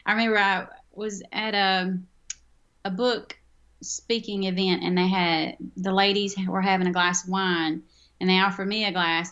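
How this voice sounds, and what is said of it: Southern US accent with twang. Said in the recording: “I'm very Southern, as you can tell. ... my twang comes out ... my accent gets thicker”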